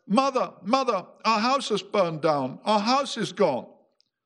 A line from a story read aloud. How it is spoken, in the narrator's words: she cried